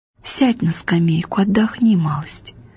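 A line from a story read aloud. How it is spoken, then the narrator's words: Whisper in ear. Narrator (Russian): мать шепнула на ухо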